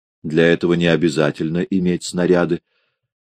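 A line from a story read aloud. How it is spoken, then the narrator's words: Indifferent, offhand. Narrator (Russian): сказал незнакомец равнодушным тоном, как бы между прочим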